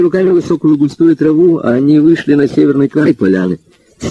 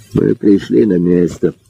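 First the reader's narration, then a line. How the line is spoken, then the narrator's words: Quiet speech. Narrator (Russian): тихо сказал Спиридонов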